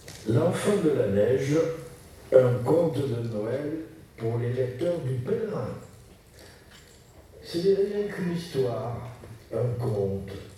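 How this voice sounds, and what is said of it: Regional French accent. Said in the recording (French): “lui a un accent différent du mien qui va bien avec les contes de Noël”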